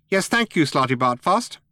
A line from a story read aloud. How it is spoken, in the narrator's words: said Benji Mouse sharply